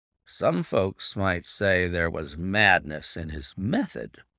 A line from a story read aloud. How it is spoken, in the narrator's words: muttered the inspector